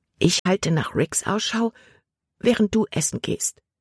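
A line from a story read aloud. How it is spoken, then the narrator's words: Whispering. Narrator (German): flüsterte Libby Caleb zu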